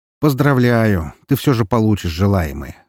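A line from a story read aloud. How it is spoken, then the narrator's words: Wry snort. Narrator (Russian): хмыкнул я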